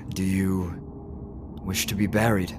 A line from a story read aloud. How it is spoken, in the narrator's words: The body wheezes out again